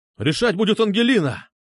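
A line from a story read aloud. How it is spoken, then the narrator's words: Nervous exclamation. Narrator (Russian): Нервно воскликнул Нащекин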